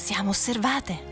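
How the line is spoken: Woman whispering. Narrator (Italian): disse lei in un sussurro

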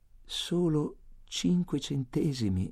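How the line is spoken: Pleading. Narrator (Italian): implorai

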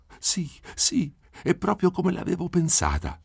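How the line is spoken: Joyful exclamation. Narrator (Italian): esclamò con la gioia che le brillava negli occhi

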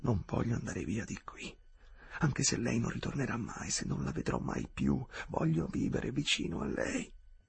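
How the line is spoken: Ardent whisper. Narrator (Italian): sussurrò ardentemente

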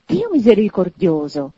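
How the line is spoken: Choked, astonished exclamation. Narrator (Italian): esclamò il signore soffocato dallo stupore

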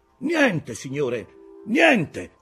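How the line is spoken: Shouted reply from above. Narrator (Italian): fu il grido che scese in risposta

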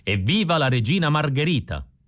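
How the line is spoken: Old man shouting. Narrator (Italian): Il vecchio Scarparo gridò

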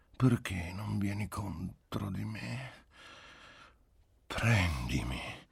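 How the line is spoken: Pleading, faintly reproachful voice. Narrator (Italian): nella sua voce implorante gli parve di avvertire quasi un rimprovero

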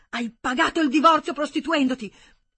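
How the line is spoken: Shouting in unfamiliar voice. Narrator (Italian): Sembrava a Hermann che non fosse la sua voce a gridare

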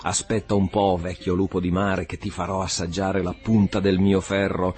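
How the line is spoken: Shouted. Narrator (Italian): gridò

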